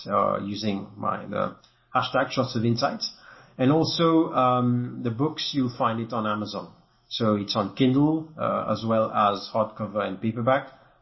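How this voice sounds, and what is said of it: Slight French accent. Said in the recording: “my accent is a bit French, so it's not, won't fly with everyone”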